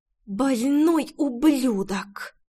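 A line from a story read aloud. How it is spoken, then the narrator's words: Spat through teeth. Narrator (Russian): выплюнула сквозь зубы Рейна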